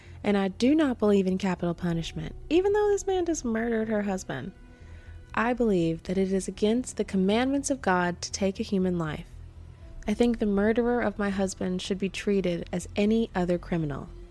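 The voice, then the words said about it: Put-on Southern accent. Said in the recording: “I don't know why she has a southern accent in my mind, but she does now.”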